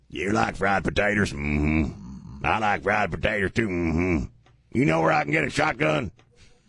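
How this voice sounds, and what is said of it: Imitates another person's voice. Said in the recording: “I like the way you talk ... You're thinking of Sling Blade ... Billy Bob do it”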